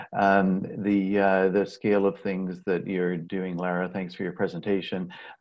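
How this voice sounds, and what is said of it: Speaks with a noticeable accent. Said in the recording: “Apologize for my funny accent.”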